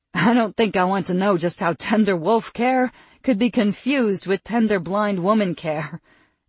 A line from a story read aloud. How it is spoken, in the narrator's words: Stella said as she wiped the tears from her laughter away